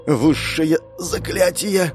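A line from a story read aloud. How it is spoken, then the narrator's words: Strained, forced-out words. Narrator (Russian): выдавила из себя полукровка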